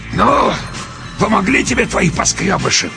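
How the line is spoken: Wheezing rasp. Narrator (Russian): продолжал меж тем хрипеть человек

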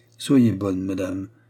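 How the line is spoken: Plain. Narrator (French): dit le cardinal

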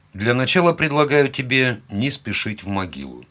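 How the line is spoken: Plain. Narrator (Russian): сказал я

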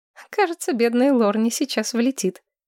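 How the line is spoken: Giggling. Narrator (Russian): хихикнула Мэтчен Садден

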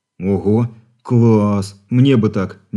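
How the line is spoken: Dreamy drawl. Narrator (Russian): мечтательно протянул парень

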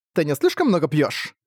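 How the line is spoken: Sharp, frowning woman. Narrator (Russian): Резко спросила нахмурившаяся женщина

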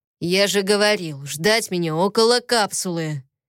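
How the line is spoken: Harsh irritated voice. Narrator (Russian): Тогра говорил грубо и жестко, в его голосе слышалось раздражение

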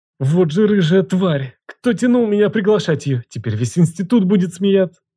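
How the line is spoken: Forced through teeth, hurt. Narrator (Russian): Выдавил я сквозь зубы, чувствуя, как душит обида

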